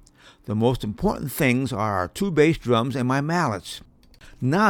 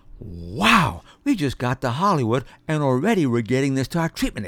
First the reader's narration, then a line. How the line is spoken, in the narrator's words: exclaimed Nick